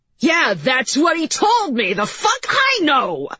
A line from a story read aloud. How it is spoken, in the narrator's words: McKee shouted